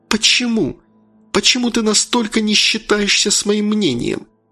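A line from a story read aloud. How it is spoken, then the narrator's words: Whistling exhale. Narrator (Russian): Северин Владленович со свистом выдохнул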